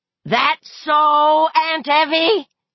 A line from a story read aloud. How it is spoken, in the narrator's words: George Mira screamed